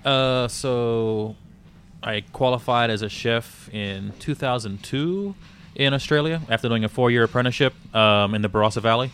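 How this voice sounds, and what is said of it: Australian-American hybrid accent. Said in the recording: “I picked up an American accent very quickly. ... the unique New Orleans-Australia hybrid accent mashup”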